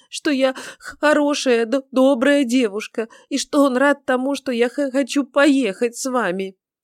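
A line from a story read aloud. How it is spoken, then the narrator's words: Sobbing reply. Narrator (Russian): ответила Бритта, все еще содрогаясь от рыданий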